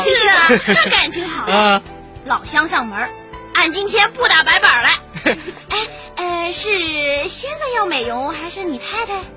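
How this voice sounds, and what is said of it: Northeastern Chinese accent. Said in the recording (Chinese): “听小姐的口音是东北人吧？”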